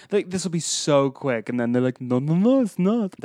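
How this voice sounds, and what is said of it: Imitates a movie character's voice. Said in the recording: “That was my Switch impression.”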